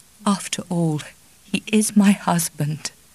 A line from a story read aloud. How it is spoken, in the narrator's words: she said in a choking voice